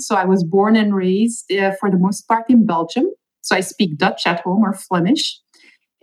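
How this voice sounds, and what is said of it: Belgian Flemish accent. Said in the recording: “as you'll hear immediately, I do have an accent.”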